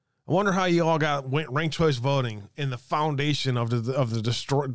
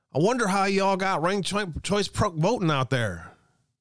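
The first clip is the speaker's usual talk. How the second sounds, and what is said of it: Exaggerated bad Southern accent. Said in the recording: “in my worst southern accent”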